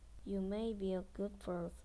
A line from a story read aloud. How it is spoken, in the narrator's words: says